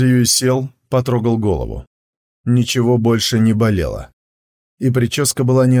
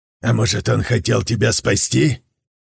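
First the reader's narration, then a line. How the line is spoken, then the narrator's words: Scoffing. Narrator (Russian): Мастер Бао хмыкнул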